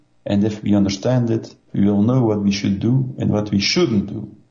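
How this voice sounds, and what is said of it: Foreign Belgian accent. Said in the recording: “you speak with a foreign accent ... Belgium. I'm from Belgium.”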